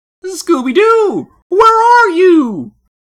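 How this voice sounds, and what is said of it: Shaggy impression, odd tone. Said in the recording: “That was an odd tone to ask it in. ... your Scott Menville Shaggy impression”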